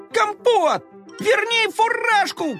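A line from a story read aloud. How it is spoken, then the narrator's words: Shouting. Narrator (Russian): кричал Коржик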